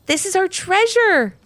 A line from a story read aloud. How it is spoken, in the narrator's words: exclaimed Ivy